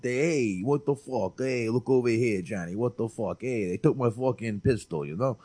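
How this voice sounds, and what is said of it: Put-on New York accent. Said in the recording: “unless he's doing the old, like the New York accent”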